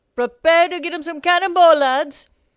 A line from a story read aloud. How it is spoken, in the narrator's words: Captain Nightletter shouted over the chaos of incoming cannon fire